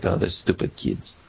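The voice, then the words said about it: Put-on Russian accent. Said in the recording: “that's how you do a Russian accent”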